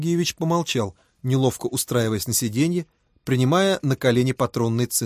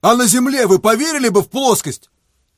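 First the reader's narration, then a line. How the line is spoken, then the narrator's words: Shouted. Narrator (Russian): крикнул Фома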